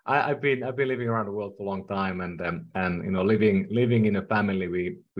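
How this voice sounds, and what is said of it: Finnish-accented English. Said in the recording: “I'm from Finland. That's the reason why I speak funny at times ... It didn't sound like Texas ... I don't think that's a Texas accent”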